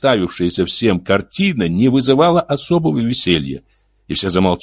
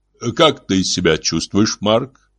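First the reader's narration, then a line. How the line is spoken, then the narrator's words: Muffled, dull voice. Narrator (Russian): Марк глухо ответил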